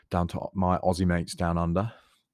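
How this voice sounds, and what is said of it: Dodgy put-on Australian accent. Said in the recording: “Dodgy Australian accent”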